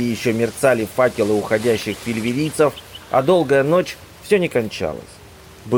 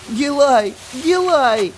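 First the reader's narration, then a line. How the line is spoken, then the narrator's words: Sobbing. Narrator (Russian): зарыдал Камиль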